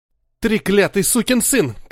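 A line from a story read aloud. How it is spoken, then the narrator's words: Shouting. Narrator (Russian): кричал Томми в пустую витрину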